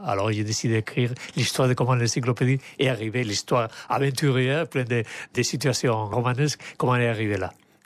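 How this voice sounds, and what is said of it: Strong charming foreign accent in French. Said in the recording (French): “Tout le monde est sous le charme de l'accent. ... il a un accent très marqué et en même temps, on le comprend parfaitement bien. Donc, lui donne beaucoup de charme.”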